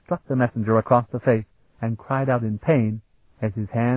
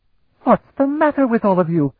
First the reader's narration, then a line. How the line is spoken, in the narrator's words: he demanded in a shrill voice